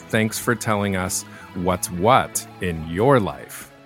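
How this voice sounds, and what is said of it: Cheesy exaggerated announcer voice. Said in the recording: “my cheesy little maybe outro ... in my cheesy voice”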